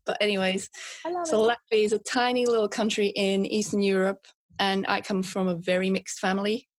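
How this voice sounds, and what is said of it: Latvian accent mixed with British. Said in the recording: “I'm from Latvia, as you can hear from my accent, which is mixed with British now”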